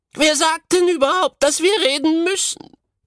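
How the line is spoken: Dainty goatherd girl calling. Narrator (German): rief die zierliche Ziegenhirtin

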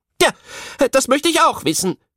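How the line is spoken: Called out, carpenter woman. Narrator (German): rief die Tischlerin

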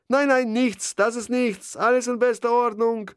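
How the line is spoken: Calling back, strangely thin voice. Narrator (German): rief Harms mit einer merkwürdig dünnen Stimme zurück

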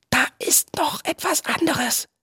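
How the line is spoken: Whispered. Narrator (German): flüsterte Viggo

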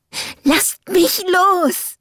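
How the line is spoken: Panicked scream. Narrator (German): schrie eine panische Stimme, die eindeutig meiner Freundin Rachel gehörte

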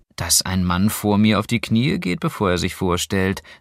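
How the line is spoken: Dry. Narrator (German): sagte Clara trocken

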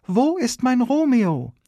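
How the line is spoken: Calling across the room. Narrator (German): Und Julia auf ihrer Bahre macht alles nur noch schlimmer, indem sie über anderthalb Meter hinweg in den Raum ruft

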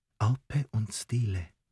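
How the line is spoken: Hesitant whisper. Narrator (German): Er stockte kurz, dann überwand er sich und flüsterte

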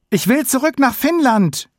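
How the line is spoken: Scream. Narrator (German): schrie Sami

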